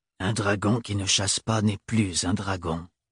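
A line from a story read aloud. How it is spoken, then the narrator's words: Old man grumbling. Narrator (French): gronda le vieil homme dans sa barbe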